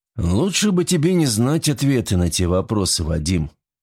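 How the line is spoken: Sighing. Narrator (Russian): вздохнул Серов

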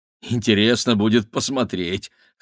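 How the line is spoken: Wry snort. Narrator (Russian): хмыкнул Игорь

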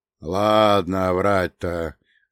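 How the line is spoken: Lazy reply. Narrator (Russian): лениво отозвался Кнут

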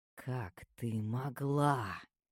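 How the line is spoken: Raspy snake-like hiss. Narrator (Russian): Мой голос походил на змеиное шипение, царапал горло острыми когтями

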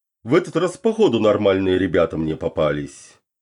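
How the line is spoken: Unspoken thought. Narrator (Russian): подумал он

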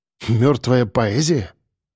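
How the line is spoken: Scoffing snort. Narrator (Russian): хмыкнул я

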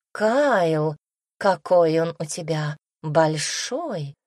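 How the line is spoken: Whispered. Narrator (Russian): прошептала она

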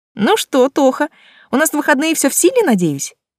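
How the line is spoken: Loud yell in ear. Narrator (Russian): завопила она в самое ухо

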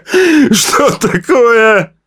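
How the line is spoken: Shouting. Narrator (Russian): прокричал он

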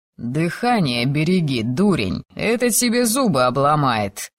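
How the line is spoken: Snorting sergeant. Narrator (Russian): хмыкнул сержант Кенни

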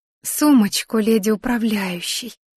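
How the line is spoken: Barely audible. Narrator (Russian): едва слышно ответила она

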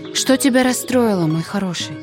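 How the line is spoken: Very tender question. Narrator (Russian): спросила самым ласковым голосом

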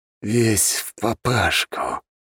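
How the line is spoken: Through gritted teeth. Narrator (Russian): процедил колдун

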